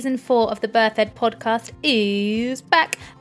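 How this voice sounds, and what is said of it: Announcer-style radio voice. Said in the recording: “my very best radio voice”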